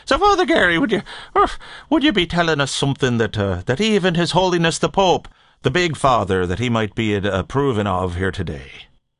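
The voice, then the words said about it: Put-on Irish accent. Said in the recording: “There are those out there who enjoy the Irish accent”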